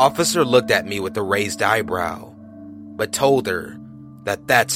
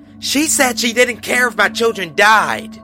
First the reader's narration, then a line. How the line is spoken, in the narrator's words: blurted out